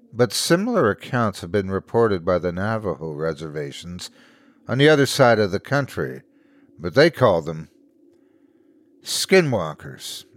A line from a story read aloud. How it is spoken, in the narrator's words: sighed, cutting him off